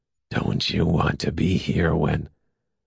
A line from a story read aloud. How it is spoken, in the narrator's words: Turpin said raspingly